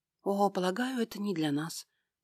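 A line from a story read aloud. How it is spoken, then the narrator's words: Conciliatory explanation. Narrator (Russian): пояснила Финелла примирительным тоном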